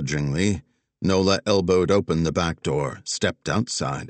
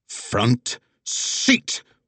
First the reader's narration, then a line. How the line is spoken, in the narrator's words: Wags growled in a tone Nola hadn't heard before